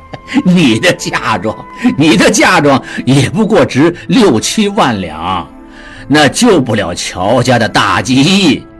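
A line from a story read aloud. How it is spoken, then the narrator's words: Laughing. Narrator (Chinese): 陆大可看出女儿与他斗起心眼儿，笑道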